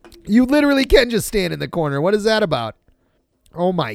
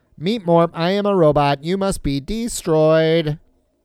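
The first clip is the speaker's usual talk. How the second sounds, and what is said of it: Robot voice. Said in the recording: “That's my grandma's boy robot voice.”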